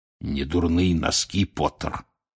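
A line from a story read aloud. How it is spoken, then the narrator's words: Hoarse rasp. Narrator (Russian): прохрипел Грюм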